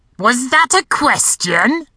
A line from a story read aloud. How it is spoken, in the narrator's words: barked a gravelly, phlegm-rich, croaky voice